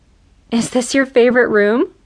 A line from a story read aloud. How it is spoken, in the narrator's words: He chuckled